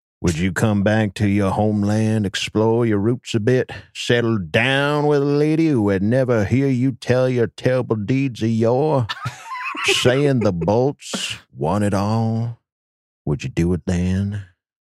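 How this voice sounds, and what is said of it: Creepy character voice. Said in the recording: “that's a really creepy voice.”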